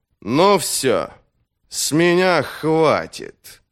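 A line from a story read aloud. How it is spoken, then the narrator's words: Low muffled growl. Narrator (Russian): глухо прорычал маг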